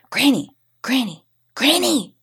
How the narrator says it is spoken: I whispered loudly

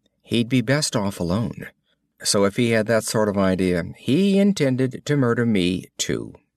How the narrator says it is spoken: said Moran dryly

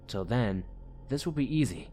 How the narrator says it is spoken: I sighed

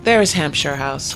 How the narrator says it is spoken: called the carriage man

